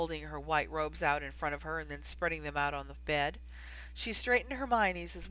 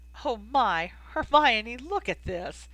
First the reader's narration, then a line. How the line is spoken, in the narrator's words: Ginny was laughing